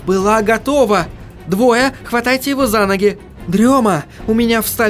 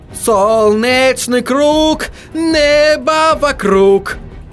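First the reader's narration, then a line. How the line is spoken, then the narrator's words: Howl. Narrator (Russian): взвыл Отто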